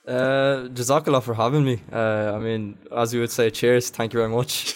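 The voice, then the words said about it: Poor put-on Irish accent. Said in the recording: “a Chinese guy trying to make an Irish accent. Terrible.”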